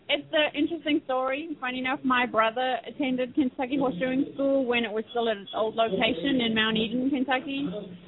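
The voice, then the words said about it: South African accent. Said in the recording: “this girl with, like, an English accent. I'm going, it should be a southern accent ... a girl from South Africa”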